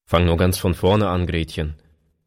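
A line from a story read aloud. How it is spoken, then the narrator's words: Plain. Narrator (German): sagte er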